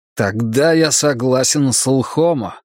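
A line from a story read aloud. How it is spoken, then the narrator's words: Hissed through teeth. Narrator (Russian): прошипел я сквозь зубы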